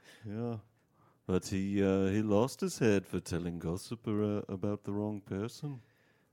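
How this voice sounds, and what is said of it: Exaggerated Liverpool-style character accent. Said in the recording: “that ridiculous accent ... Liverpool”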